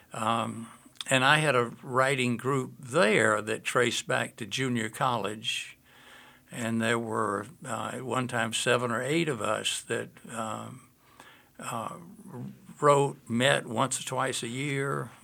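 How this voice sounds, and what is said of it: Georgia Southern US accent. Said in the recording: “I'm from Georgia originally, which is where my accent comes from.”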